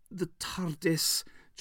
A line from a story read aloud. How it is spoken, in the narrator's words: choked the Doctor